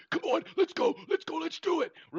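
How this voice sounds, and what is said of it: Impersonation of a colleague. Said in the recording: “Those impersonations were unbelievable, brother.”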